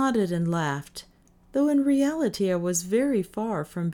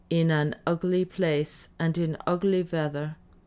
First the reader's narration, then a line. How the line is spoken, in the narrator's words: he answered gravely, but with a twinkle of fun in his eye